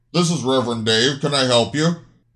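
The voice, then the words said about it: Deep male character voice. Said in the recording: “a deep voice answered”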